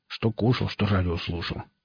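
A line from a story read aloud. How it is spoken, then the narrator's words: Displeased mutter. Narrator (Russian): недовольно пробурчал он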